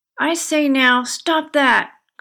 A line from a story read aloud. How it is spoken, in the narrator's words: cried Danny